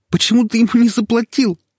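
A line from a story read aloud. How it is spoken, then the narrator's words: Hysterical shriek. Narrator (Russian): слишком истерично взвизгнула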